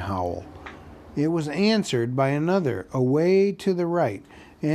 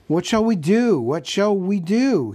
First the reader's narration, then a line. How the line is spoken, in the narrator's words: cried